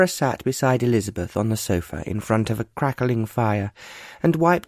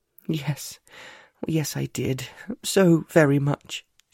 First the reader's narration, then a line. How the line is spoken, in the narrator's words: she managed to say, although her voice felt weak and shaky